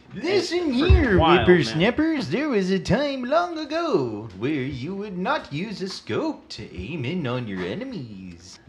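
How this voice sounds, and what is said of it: Creepy old man voice. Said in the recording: “That's my old man voice. ... A little creepy.”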